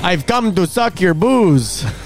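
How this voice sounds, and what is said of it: Put-on Dracula accent. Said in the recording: “a Dracula accent”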